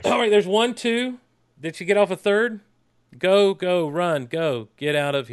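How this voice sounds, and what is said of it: Flat monotone reading of intense lines. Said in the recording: “Let me read these intense lines in a very monotone voice”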